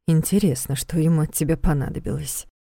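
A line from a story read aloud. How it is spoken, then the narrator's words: Worried muttering mother. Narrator (Russian): пробормотала мама, хмурясь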